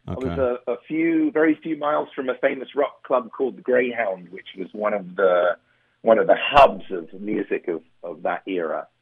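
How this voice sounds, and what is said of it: London English accent. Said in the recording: “I grew up in London, England ... my accent was never quite abraded by many years of living in this wonderful country”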